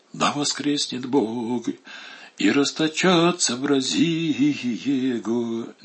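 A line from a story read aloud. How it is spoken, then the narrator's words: Bishop whispering. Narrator (Russian): Не сказал, а прошептал владыка Иларион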